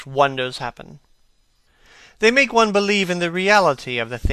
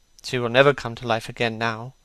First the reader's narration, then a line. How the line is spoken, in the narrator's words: murmured the lad